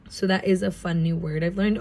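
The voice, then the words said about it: American accent. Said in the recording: “I feel like an American accent is so boring... we're American”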